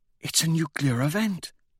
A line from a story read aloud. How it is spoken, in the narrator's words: she whispers